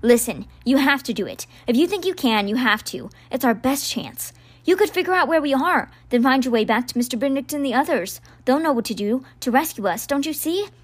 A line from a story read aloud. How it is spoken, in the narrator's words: Rennie said urgently